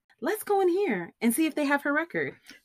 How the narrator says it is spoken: said excitedly

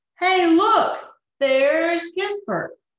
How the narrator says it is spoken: the hippo shouted

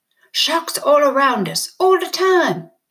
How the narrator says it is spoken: he roared

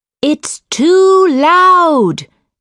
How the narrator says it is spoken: shouted Miss Carey

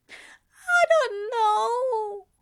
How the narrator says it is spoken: Aziraphale moaned

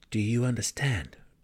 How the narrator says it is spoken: Drizzt whispered to Guinevere

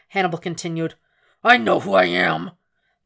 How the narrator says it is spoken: Dolarahyde snarled

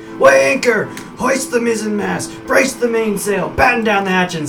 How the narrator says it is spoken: in his excitement, Bazoom starts yelling things like

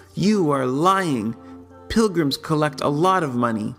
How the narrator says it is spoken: did not believe me and impudently cried

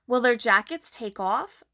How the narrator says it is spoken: asked Lucy

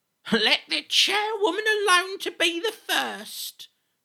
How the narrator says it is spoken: cried she who had entered first

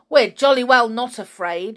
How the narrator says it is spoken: yelled John angrily

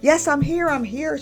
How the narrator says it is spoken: yelled as loud as she could, excitedly

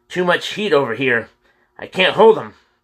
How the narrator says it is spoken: James cried

